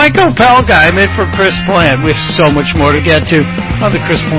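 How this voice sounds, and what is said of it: Usual voice. Nothing is said of it.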